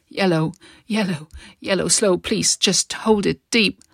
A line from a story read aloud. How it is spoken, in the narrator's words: yelped in pain and cried